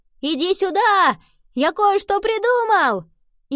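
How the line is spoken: Shouting over wind. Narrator (Russian): Сквозь шум ветра Генри крикнул

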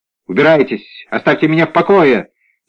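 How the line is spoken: Yelled in reply. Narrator (Russian): заорал в ответ Мирибель

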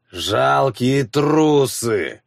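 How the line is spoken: Old man growling. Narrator (Russian): прорычал старик

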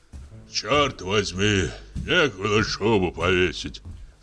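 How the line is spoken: Hoarse bass voice. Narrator (Russian): слышит артистка хриплый бас

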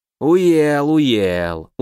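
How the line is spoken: Smirking. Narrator (Russian): усмехнулся ворон

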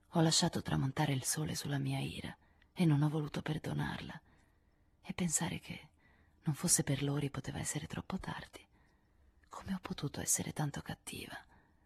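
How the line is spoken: Soft, half voice. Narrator (Italian): disse Joe a mezza voce

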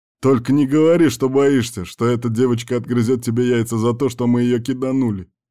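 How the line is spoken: Bored chuckle. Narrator (Russian): хохотнул Кирк просто от скуки

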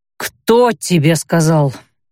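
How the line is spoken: Quieter, through gritted teeth. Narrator (Russian): Осведомилась малость потише, зато сквозь зубы

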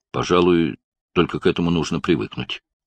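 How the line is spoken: Mumbled. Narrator (Russian): пробормотал Барни

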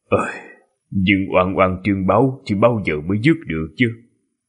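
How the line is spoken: Sighing. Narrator (Vietnamese): Đại sư huynh mới thở dài

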